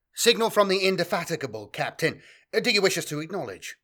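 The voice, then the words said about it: Clipped accent, carefully neutral tone. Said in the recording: “the clipped accent of his flag lieutenant, the young officer maintaining a carefully neutral tone to his voice”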